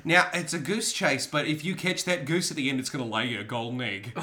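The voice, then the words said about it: Character voice with an accent. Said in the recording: “it's the accent”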